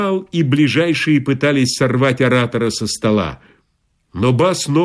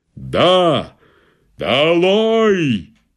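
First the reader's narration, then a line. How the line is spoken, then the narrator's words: Thundered menacingly. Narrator (Russian): грянул он, грозно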